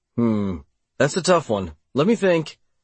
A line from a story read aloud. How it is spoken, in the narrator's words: I said, pretending to waffle on the answer